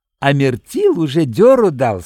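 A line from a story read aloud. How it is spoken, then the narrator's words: Silly giggling. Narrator (Russian): сказал Димант, глупо хихикая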